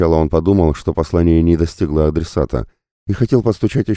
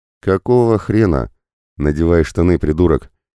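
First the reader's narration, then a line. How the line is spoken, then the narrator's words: Rude, sudden. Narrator (Russian): Неожиданно сам для себя грубо сказал Тед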